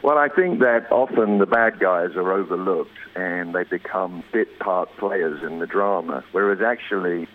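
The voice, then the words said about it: English accent. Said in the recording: “I'm speaking to you from rainy England, which is why I've got this accent thing going on”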